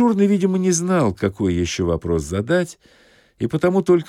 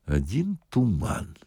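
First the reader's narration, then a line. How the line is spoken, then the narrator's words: Quiet. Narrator (Russian): сказал милиционер тихо дежурному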